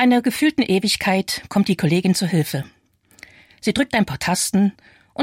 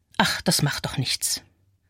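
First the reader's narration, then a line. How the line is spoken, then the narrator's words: Murmuring. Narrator (German): höre ich murmeln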